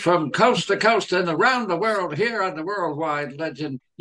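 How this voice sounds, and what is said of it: Announcer-style radio voice. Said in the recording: “using my announcing skills and radio voice.”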